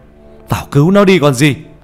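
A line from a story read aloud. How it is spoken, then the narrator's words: Alarmed shouting. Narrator (Vietnamese): Nhận ra điều chẳng lành, ông thầy quay lại hét lên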